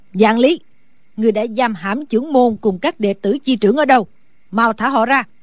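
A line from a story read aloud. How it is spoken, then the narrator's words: Loud shout, old woman. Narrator (Vietnamese): Sử bà bà lớn tiếng hét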